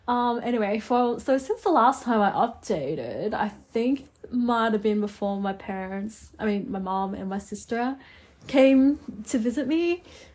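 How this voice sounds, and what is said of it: Sick, hoarse-sounding voice after a cough. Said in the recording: “I don't know why I have this accent. Like, am I trying to talk like a Canadian or like an American? ... I have a bit of a funny voice because I've been sick and I'm still recovering from the cough”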